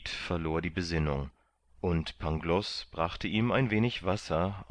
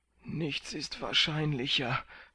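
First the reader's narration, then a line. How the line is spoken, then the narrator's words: Groaning. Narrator (German): stöhnte Kandid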